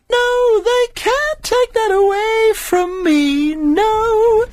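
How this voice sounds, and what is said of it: Singing in a big camp voice. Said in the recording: “singing a song in a big camp voice”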